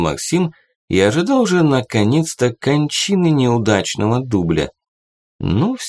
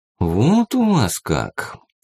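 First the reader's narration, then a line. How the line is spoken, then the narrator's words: Drawled, violinist. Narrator (Russian): протянул скрипач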